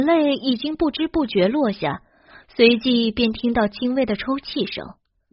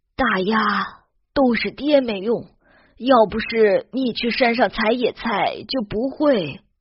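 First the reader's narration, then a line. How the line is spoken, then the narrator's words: Sighing, helpless. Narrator (Chinese): 何琴叹口气，无奈的说道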